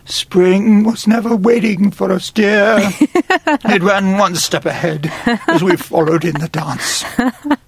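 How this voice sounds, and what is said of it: Sung imitation of another singer. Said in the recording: “that was a really good Richard Harris impression ... Kind of screwed my voice up there”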